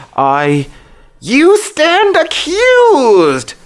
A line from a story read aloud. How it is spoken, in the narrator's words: shrieks in his ear